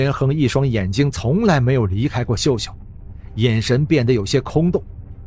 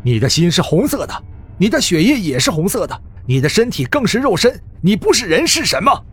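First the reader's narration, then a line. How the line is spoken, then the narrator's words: Hurried. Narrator (Chinese): 张小军急忙 说道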